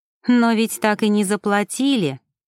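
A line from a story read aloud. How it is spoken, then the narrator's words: Mocking reminder. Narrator (Russian): насмешливо напомнила Ева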